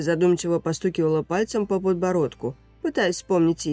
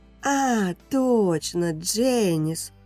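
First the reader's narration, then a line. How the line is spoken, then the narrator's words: Pleased drawl. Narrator (Russian): довольно протянула Кэти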